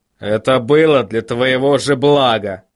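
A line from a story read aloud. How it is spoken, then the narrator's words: Grumbling. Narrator (Russian): проворчал Ваймс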